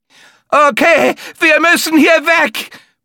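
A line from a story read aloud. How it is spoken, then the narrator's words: Bellowing. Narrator (German): brüllte Maria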